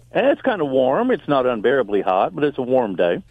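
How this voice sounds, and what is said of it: Southern American twang. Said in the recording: “You have kind of that southern twang”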